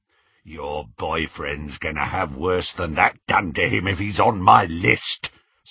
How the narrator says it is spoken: said the horribly familiar, rasping voice

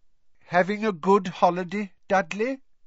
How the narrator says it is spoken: he said kindly

